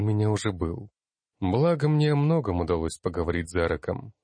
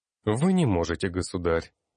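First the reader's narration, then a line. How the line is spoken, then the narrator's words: Soft but firm. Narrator (Russian): мягко, но решительно произнес я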